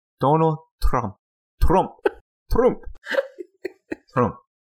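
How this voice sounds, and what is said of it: Put-on Spanish accent. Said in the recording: “my Spanish accent ... Your very ... Spanish accent”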